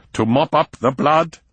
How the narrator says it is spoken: snapped Prinzel

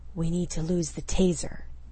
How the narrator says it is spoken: he whispered against her ear

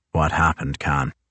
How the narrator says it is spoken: The young sailor grunts

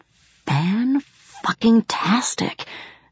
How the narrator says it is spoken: whispered Bibi

